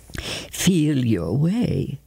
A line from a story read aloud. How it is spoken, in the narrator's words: ordered in a strained voice